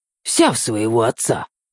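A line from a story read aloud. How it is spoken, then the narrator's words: Grandfather's snort. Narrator (Russian): фыркнул дед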